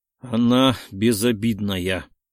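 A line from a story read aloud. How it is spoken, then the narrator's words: Impatient grumble through teeth. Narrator (Russian): Не вытерпел, чтобы не проворчать сквозь зубы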